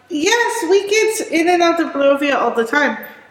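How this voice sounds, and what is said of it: Put-on character accent. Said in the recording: “Technically, all of you recognize that accent. The woman in your dream spoke mm-hmm. with this accent”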